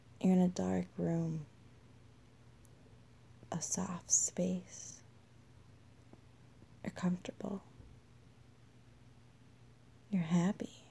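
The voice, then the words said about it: Soft whispered voice. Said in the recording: “my whispering voice”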